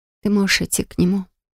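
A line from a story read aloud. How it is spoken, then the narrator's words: Whisper. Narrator (Russian): шепнул Рос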